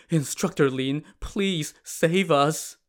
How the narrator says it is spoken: pleaded, saying

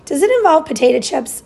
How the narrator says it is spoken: Bongo mumbled

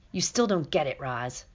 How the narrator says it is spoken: growled the wolf

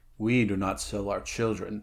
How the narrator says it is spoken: he growled, his chin jutting truculently

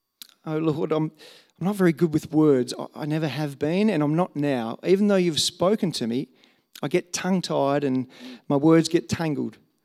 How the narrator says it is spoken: Moses pleaded with the Lord

